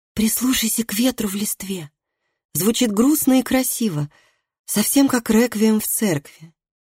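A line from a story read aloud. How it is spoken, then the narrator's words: Whisper into ear. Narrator (Russian): Матиас прошептал Колгриму на ухо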